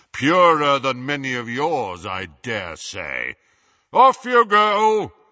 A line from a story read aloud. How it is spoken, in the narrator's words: boomed